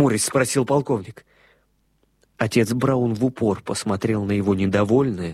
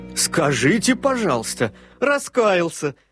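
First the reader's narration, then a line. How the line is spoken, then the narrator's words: Haughty laughing exclamation. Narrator (Russian): с надменным смехом воскликнул герцог Честерский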